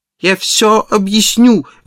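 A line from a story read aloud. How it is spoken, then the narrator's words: Desperate pleading. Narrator (Russian): в отчаянии взмолился он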